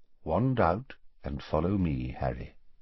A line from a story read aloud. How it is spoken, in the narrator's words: he said quietly